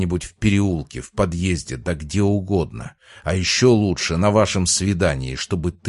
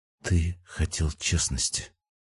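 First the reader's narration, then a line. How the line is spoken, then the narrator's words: Almost a whisper. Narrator (Russian): произнесла почти шепотом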